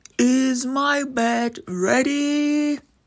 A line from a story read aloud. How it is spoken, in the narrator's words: the giant would growl